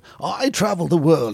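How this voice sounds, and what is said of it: Posh TV travel-presenter accent. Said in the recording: “who's that lad on CNN going? ... He's got that posh accent”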